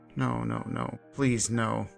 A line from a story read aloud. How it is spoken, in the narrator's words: he muttered